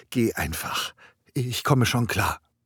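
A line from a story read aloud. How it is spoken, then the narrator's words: Soft pleading. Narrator (German): bat Aurora leise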